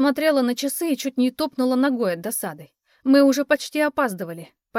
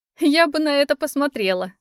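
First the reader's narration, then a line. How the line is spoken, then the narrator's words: Laughing. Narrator (Russian): засмеялась Вик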